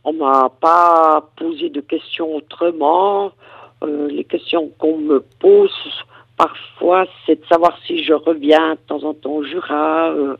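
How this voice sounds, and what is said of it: Jura regional French accent. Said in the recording (French): “ce qui marque beaucoup, c'est mon accent. On devine tout de suite que je suis jurassienne”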